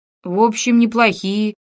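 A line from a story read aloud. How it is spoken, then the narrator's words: Hesitant, strange voice. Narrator (Russian): нерешительно каким-то чужим голосом проговорил Фома Филимонович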